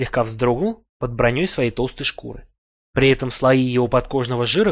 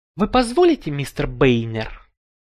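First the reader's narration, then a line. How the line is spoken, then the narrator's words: Deliberate lisp. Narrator (Russian): я сознательно шепеляво спросил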